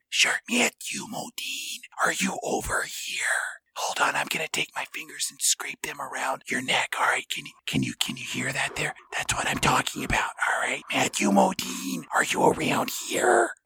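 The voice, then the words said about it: Slow whisper. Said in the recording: “Will you say that again, but more slowly? ... why are you whispering like that? It's a little weird.”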